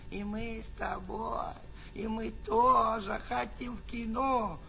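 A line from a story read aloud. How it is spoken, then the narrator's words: Whining and whimpering. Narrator (Russian): заныли бы и захныкали бы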